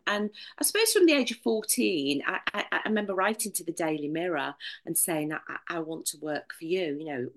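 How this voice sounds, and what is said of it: Northern English accent. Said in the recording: “as you'll tell by my accent, I'm a northerner”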